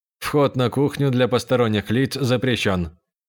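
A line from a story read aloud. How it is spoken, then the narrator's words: Mechanical robotic voice. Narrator (Russian): механическим голосом произнес робот-помощник Буфана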